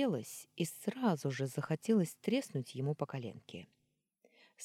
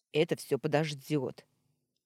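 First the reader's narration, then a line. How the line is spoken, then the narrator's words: Barked. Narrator (Russian): рявкнул Орлов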